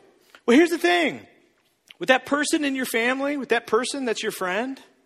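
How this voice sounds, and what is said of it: Usual voice. Nothing is said of it.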